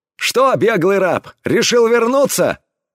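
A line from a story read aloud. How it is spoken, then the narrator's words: Loud. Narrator (Russian): Громко обратился пират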